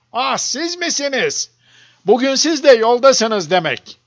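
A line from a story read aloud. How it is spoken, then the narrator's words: Several people shouting. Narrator (Turkish): diye bağırıyordu kimileri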